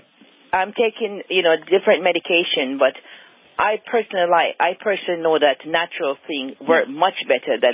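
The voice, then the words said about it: Slight Jamaican accent. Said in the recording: “you have a little bit of a Jamaica accent there.”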